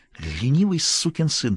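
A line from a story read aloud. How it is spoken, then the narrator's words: Hissed. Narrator (Russian): прошипела Стефи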